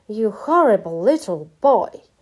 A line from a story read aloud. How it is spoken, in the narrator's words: roared